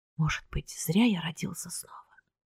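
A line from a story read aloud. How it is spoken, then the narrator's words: Whisper. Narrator (Russian): прошептал он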